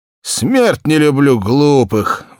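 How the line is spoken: Sighed. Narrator (Russian): вздохнул Игнат

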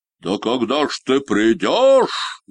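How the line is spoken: Shout. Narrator (Russian): закричал Синяя Борода

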